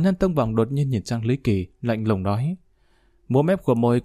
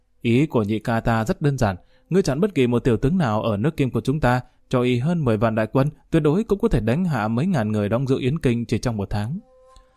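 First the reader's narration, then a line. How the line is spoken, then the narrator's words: Hearty laughing. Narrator (Vietnamese): Hoàn Nhân Tông Bật cười ha ha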